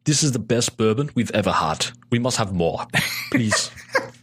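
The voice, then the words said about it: Well-done put-on foreign accent. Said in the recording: “You also do a really good accent.”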